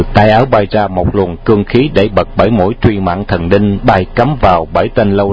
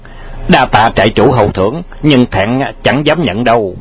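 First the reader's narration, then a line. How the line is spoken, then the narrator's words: Shouted. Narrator (Vietnamese): chàng nhẹ phất tay áo vào khoảng không một cái và quát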